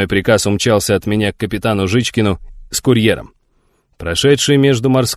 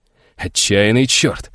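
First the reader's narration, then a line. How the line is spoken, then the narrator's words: Admiring exclamation. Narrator (Russian): восхищенно воскликнул полковник Петровский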